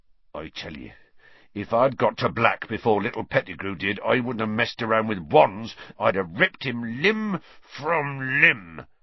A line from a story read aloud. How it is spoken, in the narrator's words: Hagrid growled